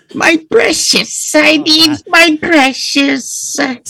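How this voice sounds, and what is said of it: Imitates Gollum's voice. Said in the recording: “I get a Gollum vibe... Like the Gollum... that's not nearly as terrifying as your E.T. impersonation”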